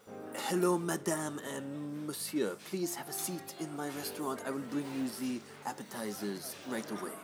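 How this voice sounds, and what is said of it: Put-on French accent. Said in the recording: “French accent. Ooh, ooh la la.”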